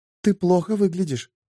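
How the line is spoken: Whispered. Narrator (Russian): прошептала Шерри

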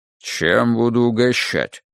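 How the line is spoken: Unexpectedly low masculine voice. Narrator (Russian): спросила она неожиданно низким мужским голосом

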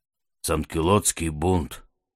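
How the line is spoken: Quiet. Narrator (Russian): тихо проговорил Амару

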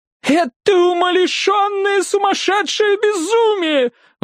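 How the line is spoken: Wailing. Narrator (Russian): взвыла дива

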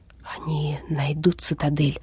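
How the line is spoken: Whisper. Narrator (Russian): шепнул Стах Ираклию

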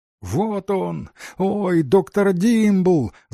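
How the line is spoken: Shouted. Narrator (Russian): закричала Айви Мэкс

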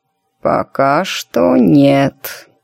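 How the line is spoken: Mumbling. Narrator (Russian): пробормотала она

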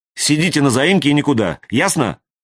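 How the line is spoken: Angry command. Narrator (Russian): велела Юлька сердитым голосом

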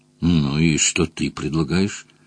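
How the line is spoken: Conspiratorial whisper. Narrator (Russian): Джон Том заговорщически зашептал

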